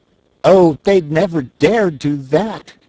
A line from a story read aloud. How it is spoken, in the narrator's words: exclaimed Tiny Trot